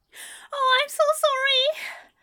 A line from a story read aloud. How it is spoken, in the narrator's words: squealed, in horror at the mess, in embarrassment